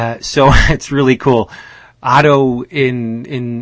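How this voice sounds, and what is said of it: Usual voice. Nothing is said of it.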